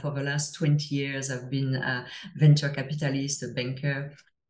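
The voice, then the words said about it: French accent. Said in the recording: “as I'm sure you can hear to my accent, I'm from France originally”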